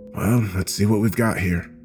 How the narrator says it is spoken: I whispered out into the room, more to myself than to Studson

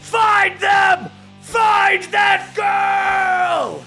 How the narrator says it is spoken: the Emperor yells out

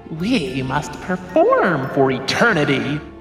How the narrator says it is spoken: another clown growled

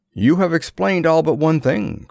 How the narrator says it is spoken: cried the colonel

